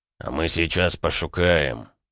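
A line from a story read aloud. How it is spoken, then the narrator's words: Deep bass voice. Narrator (Russian): пробасил другой голос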